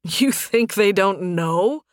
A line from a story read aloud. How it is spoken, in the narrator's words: Nathan laughed